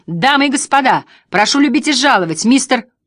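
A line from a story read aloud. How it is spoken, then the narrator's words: Loud shout. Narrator (Russian): громко выкрикнул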